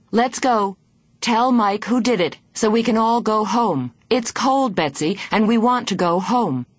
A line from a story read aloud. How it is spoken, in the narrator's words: She began to shout